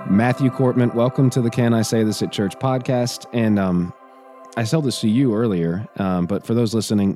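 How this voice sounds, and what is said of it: Raspy, hoarse voice. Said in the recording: “my voice is more raspy because everybody in my family, except for my wife and son, decided to get the flu ... But the rasp is nice. I'm liking the rasp ... you and your raspy voice.”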